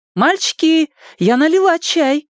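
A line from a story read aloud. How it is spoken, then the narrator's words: Cheerful call from afar. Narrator (Russian): весело крикнула с крыльца мать Ричи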